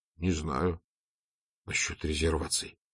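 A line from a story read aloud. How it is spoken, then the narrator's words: Whispered reply. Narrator (Russian): шепнул в ответ Эжен Оливье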